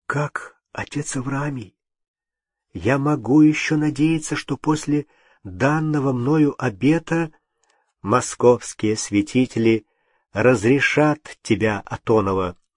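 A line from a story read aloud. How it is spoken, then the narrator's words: Trembling, restrained joy. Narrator (Russian): Не смея предаваться радости, не веря самому себе, Юрий сказал дрожащим голосом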